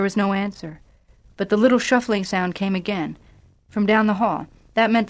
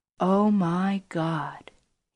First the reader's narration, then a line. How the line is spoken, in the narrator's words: he said softly